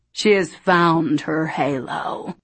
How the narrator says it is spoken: growled

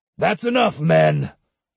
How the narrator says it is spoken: he thundered

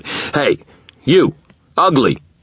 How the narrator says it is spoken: shouted

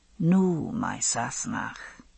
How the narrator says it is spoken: he said softly

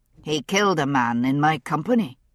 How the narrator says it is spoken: Green Eyes said, his voice rough with anger

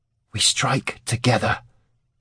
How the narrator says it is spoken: he hissed

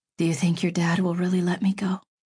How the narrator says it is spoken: she said in a low voice

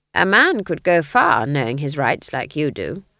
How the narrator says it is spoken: said Granny

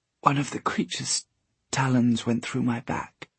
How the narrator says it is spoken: she whispered

